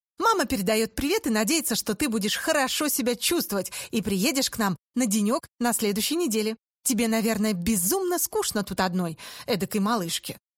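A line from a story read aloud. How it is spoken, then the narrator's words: Cheerful, casual. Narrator (Russian): принц Чарли и сказал весело и непринужденно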